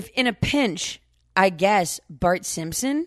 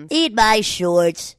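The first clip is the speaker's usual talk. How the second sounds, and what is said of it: Cartoon character voice impression. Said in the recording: “Bart Simpson ... can you say that in the right way? ... Accent. No, not accents. Imitations. ... Impressions.”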